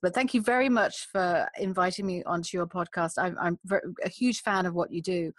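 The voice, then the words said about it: Speaks with a distinct accent. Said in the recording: “I love your accent.”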